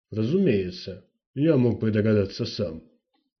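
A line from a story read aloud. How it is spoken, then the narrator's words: Grumbling. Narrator (Russian): проворчал Карапатский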